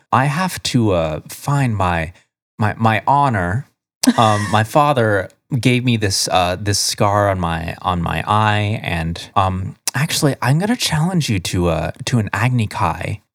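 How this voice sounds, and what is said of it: Imitates another person's voice, very chill. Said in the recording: “He has the chillest voice that you could possibly have. He just kind of talks like this. ... This is my Jeff Goldblum impression.”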